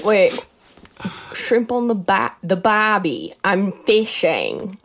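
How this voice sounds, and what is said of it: Put-on Australian accent. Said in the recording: “there goes my Australian accent... That's exactly what they sound like.”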